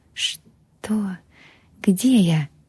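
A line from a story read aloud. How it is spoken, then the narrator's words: Barely audible whisper. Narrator (Russian): прошептала, а голос был едва слышен в тишине комнаты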